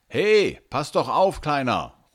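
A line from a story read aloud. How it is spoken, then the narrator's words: Man calling out. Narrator (German): ruft der Mann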